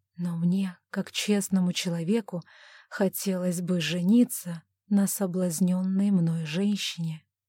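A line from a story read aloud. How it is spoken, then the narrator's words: Whispering. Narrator (Russian): прошептал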